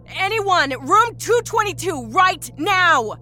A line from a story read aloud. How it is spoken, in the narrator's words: She yelled down the soundless hall